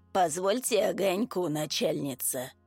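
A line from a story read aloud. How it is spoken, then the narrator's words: Hoarse voice from below. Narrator (Russian): раздался хриплый голос откуда-то снизу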